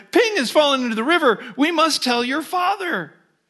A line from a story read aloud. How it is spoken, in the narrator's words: Alarmed, mother cried